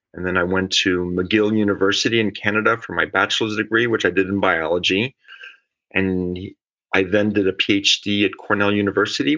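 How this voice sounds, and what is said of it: Swiss speaker with North American-sounding accent. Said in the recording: “probably hear from my voice, I've spent quite a few years in North America, although I'm Swiss”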